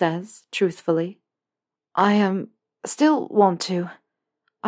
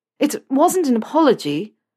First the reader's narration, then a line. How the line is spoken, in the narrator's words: Harry stutters